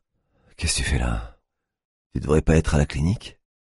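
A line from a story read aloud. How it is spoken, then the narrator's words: Monotone voice. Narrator (French): dit-elle d'une voix monotone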